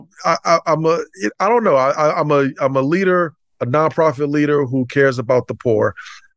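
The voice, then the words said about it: Brooklyn New York accent. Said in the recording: “Brooklyn, New York ... the accent hits”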